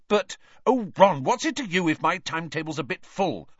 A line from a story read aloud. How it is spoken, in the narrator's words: Hermione snapped